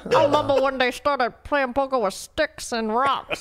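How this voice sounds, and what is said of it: Imitates another person's voice. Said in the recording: “Is that a good impression? ... That was a good impression. ... that sounds exactly like ... Him.”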